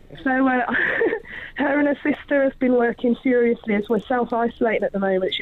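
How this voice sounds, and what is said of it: Unwell voice, sounds like a cold. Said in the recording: “You can probably hear my voice isn't great. ... it's a badly timed cold”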